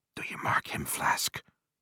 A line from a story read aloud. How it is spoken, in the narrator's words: whispered Stubb